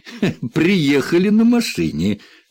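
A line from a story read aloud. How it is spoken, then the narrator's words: Laughing. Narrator (Russian): рассмеялся Уоррен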